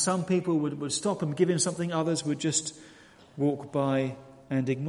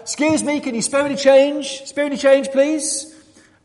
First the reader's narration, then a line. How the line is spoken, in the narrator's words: shout out